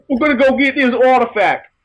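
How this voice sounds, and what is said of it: Weak attempt at Boston accent. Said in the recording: “I can't do a Boston. I can't do a Boston accent.”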